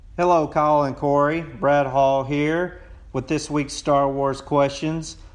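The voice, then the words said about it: Drawling Texas accent. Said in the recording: “my Texas accent... my long-drawn accent”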